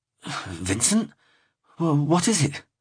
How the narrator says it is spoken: shuffling upright, stammered

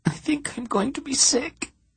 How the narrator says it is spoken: she said in a quivering little voice

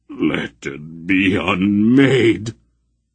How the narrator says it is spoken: Mara groaned

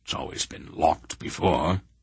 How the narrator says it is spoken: he muttered

